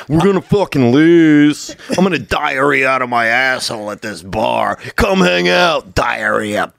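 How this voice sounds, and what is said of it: Imitates another person's voice. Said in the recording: “That's Nick Swartzen.”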